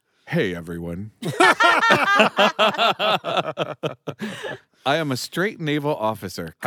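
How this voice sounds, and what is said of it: Put-on straight naval officer voice. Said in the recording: “in my best straight officer voice.”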